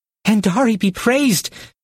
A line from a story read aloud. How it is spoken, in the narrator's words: he exclaimed